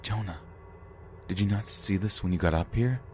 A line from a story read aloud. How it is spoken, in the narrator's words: whisper